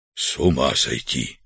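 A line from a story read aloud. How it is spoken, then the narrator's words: Whisper. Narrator (Russian): прошептал Артур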